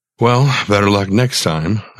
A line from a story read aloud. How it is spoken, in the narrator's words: I sighed